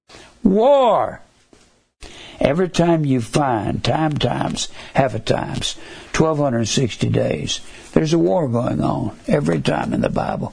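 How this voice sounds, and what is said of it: Hoarse voice. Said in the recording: “my voice is getting hoarse ... I've had a little bit of bronchitis lately”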